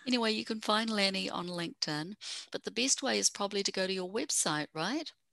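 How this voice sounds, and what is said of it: Fast speech with a foreign accent. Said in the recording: “I forget that I talk fast and I have an accent.”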